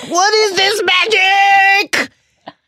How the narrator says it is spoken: Quirrell shriek

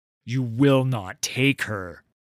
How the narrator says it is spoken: Udir spat

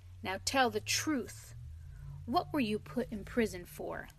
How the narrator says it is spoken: The engine driver looked down upon him very sternly and said

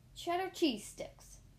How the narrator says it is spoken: Inspector Rat exclaimed in frustration

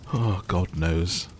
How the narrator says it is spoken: said the first with a yawn

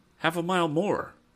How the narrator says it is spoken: cried Ned

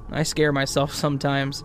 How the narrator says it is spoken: Philip laughed

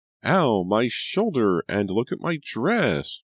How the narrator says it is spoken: Julia wailed

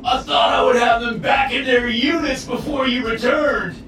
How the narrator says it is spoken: he howled as his limbs bashed at the barrier

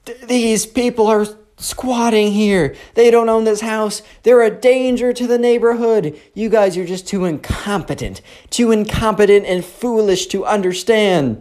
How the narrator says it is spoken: the Karen is screaming

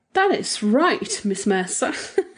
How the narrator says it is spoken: said Josephine Cameron with a nasty little laugh

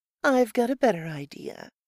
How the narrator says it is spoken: she said calmly

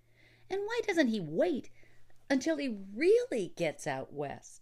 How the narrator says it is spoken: The traveled Easterner laughed

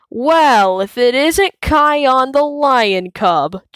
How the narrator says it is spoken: Janja sneers

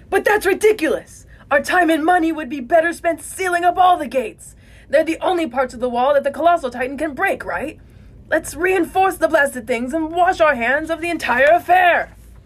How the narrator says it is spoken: A merchant screams out

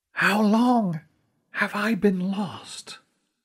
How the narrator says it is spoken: said in a whisper

